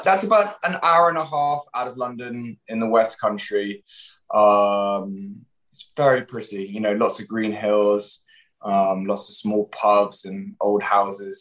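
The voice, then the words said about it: English accent. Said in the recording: “Every time I hear an English accent”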